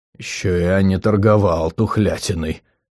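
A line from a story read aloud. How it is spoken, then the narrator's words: Growling. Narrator (Russian): рыкнул Аталь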